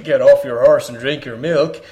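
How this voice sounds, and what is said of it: John Wayne impression. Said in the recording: “the reincarnation of John Wayne”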